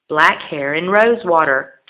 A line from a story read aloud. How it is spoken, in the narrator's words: the bird chirped in reply